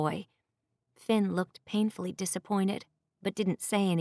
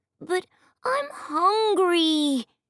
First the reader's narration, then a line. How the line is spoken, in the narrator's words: Jacoby whined